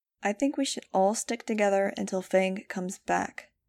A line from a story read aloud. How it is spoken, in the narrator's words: I said calmly